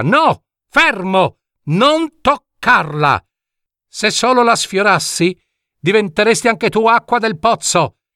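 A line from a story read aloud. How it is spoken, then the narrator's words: Talking dormouse shouting. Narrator (Italian): gridò il ghiro parlante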